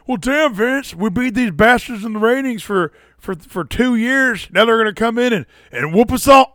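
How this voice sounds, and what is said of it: Imitates another person's voice. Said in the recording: “I always do that impression where he's always like ... Austin”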